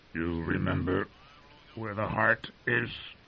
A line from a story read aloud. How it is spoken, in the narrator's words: he asked in a hoarse whisper